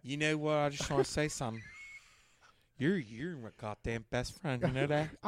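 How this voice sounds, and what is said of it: Drunken Pittsburgh accent. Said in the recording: “when you get hammered, you immediately get back your accent ... Pittsburgh ... that's Pittsburghese”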